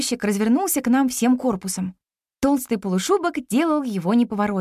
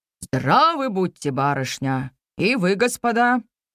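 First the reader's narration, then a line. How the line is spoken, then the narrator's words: Deep bass reply. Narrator (Russian): басом ответил Игнат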